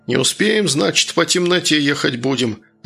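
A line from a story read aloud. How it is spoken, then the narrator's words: Irritated mutter. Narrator (Russian): раздраженно буркнул Еремей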